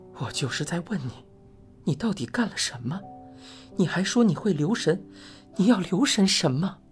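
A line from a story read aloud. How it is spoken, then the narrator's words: Slightly trembling voice. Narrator (Chinese): 李治的声音有些发颤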